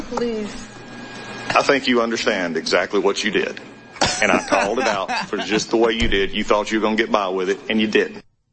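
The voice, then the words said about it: Southern American accent. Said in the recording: “laying down the law in that southern accent”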